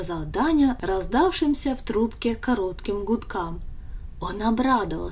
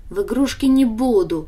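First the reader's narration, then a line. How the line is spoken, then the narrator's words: Scornful snort. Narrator (Russian): фыркнула Даша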